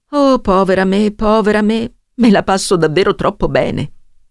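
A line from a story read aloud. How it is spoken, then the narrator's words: Moaning. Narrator (Italian): gemette Mrs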